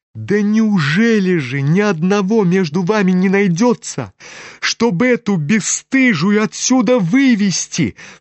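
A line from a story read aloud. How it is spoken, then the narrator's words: Sudden cry, trembling with rage. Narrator (Russian): вскрикнула вдруг вся трепеща от гнева Варя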